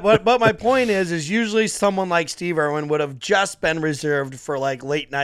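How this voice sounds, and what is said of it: Usual voice. Nothing is said of it.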